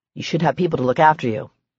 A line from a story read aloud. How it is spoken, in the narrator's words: he said gruffly